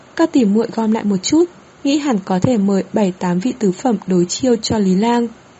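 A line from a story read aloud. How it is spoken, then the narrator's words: Smiling. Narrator (Vietnamese): Sải Hạnh Nhi mỉm cười nói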